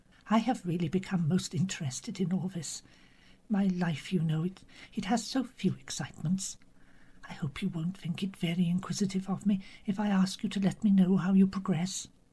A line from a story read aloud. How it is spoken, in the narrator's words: Miss Marple said gently and apologetically